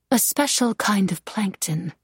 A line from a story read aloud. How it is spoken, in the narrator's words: Angelica said, her voice equally soft